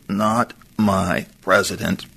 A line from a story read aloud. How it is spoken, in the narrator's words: wakes up, eyes half closed, and croaks slowly